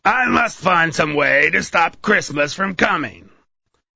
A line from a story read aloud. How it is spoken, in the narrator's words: Then he growled